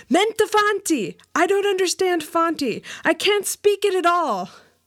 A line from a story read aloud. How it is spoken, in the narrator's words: I cried out in the native tongue